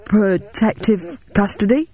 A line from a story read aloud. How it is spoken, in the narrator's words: He stammered